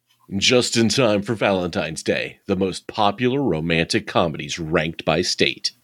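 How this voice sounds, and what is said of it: Radio DJ announcer voice. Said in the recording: “DJ voice.”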